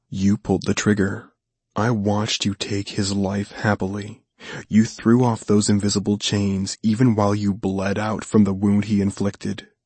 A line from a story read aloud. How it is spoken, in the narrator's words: he whispered